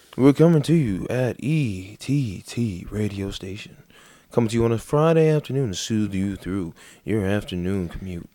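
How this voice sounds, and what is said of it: Smooth radio announcer voice. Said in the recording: “This would be my radio voice”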